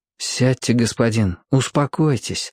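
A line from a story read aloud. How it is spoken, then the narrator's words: Gentle, soothing. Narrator (Russian): ласково сказал ему Роб, видя, что Ибн Сина потрясен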